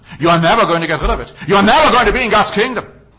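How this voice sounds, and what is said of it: Raised, loud preaching voice. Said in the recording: “raising my voice”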